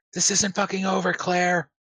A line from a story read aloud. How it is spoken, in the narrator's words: You can hear her yelling